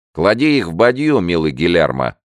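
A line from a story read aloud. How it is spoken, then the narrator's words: Shouted. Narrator (Russian): крикнул ему Рафаэль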